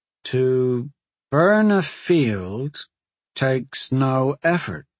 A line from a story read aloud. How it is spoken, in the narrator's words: he answered slowly